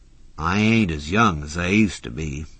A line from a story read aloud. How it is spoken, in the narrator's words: Wide Ida said gloomily